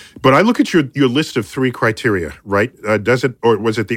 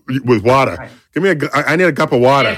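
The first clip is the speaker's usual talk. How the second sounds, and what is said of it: Put-on New York City accent. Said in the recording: “It's a very New York City accent.”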